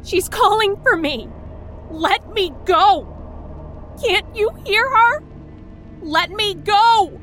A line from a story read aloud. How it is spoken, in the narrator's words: Beth screamed into my face